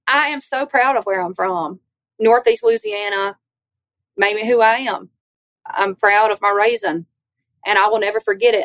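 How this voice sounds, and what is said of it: Southern US accent. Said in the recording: “Everybody up here is going to be just as country and Southern as me. They're going to sound like me. ... where in the world are you from? ... I'm not the one with an accent.”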